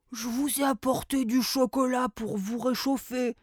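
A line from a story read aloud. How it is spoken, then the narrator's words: Murmur, small creature. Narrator (French): murmura un lutin pâtissier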